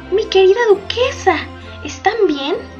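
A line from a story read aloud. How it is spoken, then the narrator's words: Exclamation. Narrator (Spanish): exclamó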